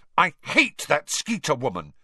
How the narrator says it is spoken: she burst out savagely

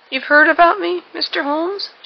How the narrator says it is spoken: she cried

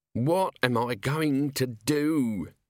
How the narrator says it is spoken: he moaned

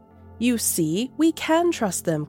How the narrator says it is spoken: said, smiling at them warmly

